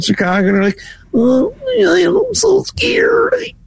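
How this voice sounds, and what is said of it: Timid, mousy scared voice. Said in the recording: “my imitation of a Chicago voter ... Like a mouse. I'm scared.”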